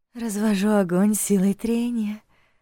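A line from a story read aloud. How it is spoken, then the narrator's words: Gentle reply from below. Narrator (Russian): ласково ответили снизу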